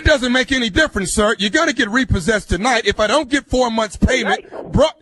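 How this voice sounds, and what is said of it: Screaming angrily over the phone. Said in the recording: “stop screaming at me over this phone”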